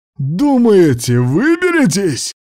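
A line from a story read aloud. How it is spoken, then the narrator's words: Booming voice from behind. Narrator (Russian): прогремел у нас за спиной голос уродца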